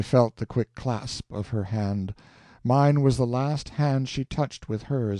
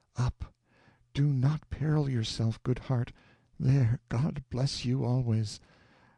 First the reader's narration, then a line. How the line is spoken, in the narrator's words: bent and whispered in my ear